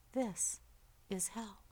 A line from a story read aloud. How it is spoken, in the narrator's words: the old man said in a calm voice